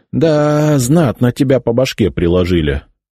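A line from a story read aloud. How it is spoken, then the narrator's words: Sighed. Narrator (Russian): вздохнул Януш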